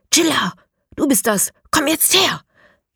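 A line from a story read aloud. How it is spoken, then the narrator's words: Hiss. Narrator (German): zischt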